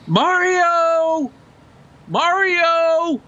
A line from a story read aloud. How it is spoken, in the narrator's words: they're yelling out